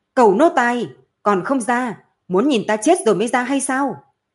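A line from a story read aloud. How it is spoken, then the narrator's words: Deep breath, loud shout. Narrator (Vietnamese): Chu Thiến Văn hít sâu một hơi liền hét lớn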